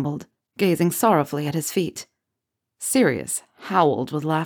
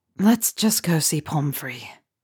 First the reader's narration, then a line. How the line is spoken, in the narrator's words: Remus sighed